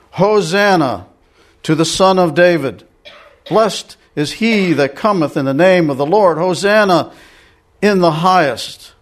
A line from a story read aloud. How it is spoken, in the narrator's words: they cried out